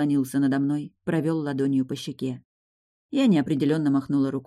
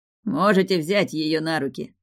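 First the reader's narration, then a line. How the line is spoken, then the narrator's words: Short laugh. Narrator (Russian): хохотнул Фарго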